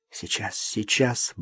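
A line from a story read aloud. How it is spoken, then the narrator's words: Muttering to herself. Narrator (Russian): бормотала она про себя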